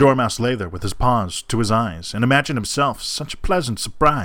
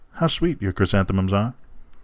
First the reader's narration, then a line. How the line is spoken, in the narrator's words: murmured